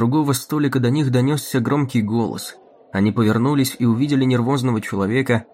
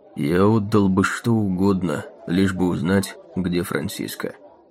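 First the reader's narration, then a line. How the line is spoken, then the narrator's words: Quiet. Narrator (Russian): негромко сказал он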